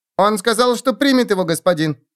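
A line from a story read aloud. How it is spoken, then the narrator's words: Squeaking. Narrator (Russian): пискнул он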